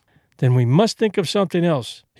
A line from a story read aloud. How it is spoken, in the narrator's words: went on, cheerfully